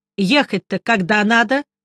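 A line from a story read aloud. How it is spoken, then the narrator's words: Plain. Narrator (Russian): спросил я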